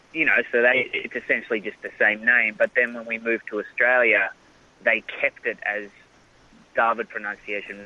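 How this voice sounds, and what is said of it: Australian accent. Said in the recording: “obviously by your voice, I love the Australian accent”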